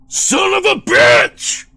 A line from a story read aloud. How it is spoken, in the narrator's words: Chris bellowed